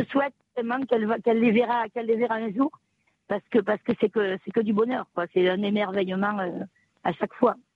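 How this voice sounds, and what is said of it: Regional French accent, not Marseille. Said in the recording (French): “vous avez l'accent et que vous avez une voix extraordinaire ... C'est pas l'accent de Marseille.”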